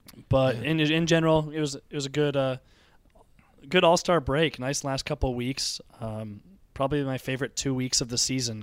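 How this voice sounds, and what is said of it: Hoarse, strained sick voice. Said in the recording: “I'm doing a little better than I sound. I lost my voice this weekend. I got a little sick ... I kind of sound terrible, though”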